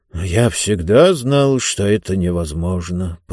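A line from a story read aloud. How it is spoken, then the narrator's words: Muttering. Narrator (Russian): пробормотал один из них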